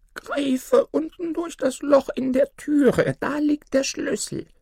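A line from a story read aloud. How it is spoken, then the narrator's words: Old woman calling out. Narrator (German): rief die Alte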